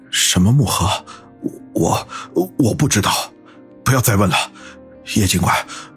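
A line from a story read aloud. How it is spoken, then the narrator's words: Panting, stammering. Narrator (Chinese): 余杭 大口喘着粗气，结结巴巴地说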